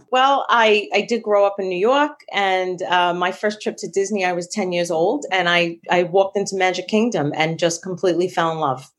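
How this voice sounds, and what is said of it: Long Island New York accent. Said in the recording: “I love hearing the accent ... other than being from Long Island”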